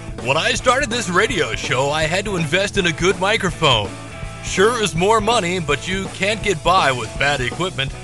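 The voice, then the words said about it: Deep announcer-style radio voice. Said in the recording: “put on my radio voice.”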